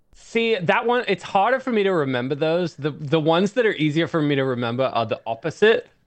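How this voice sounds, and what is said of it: Strong American accent. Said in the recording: “such a strong American accent”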